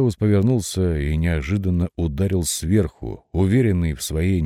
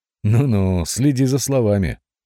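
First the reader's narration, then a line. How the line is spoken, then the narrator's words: Laughing. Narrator (Russian): проговорил он, смеясь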